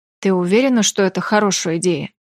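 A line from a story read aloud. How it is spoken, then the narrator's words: Plain. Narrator (Russian): спросил я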